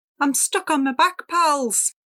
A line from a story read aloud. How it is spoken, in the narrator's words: Salty yelled